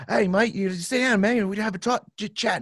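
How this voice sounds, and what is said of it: Imitated Australian accent. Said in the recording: “He had an Australian accent.”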